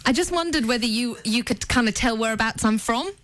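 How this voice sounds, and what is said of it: Australian New South Wales accent. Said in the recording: “with the accent ... NSW, actually. ... Oh, yeah, that's right.”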